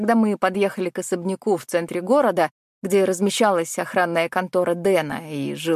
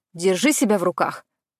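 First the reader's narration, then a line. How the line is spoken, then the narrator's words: Sharp inner bark. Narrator (Russian): мысленно рявкнула я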